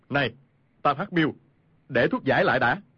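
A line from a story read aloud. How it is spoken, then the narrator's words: Shouting. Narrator (Vietnamese): Khu Sử Cơ quát lên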